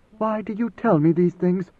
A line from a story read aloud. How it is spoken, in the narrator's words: She whispered